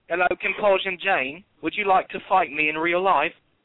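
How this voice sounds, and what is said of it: Put-on British accent. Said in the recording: “You do better British accent than I do.”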